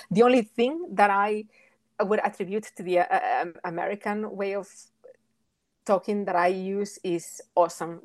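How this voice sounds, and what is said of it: Thick Spanish accent. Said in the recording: “I have a very thick Spanish accent”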